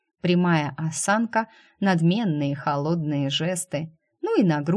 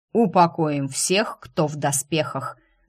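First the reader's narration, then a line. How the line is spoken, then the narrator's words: Barking shout. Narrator (Russian): гаркнул темный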